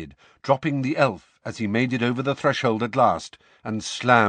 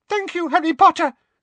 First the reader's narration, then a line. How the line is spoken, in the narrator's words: squeaked Dobby